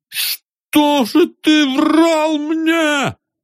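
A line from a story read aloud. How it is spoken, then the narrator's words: Shouted. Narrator (Russian): закричал он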